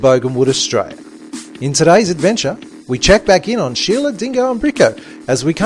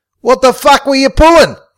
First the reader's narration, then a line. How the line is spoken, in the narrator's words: he yelled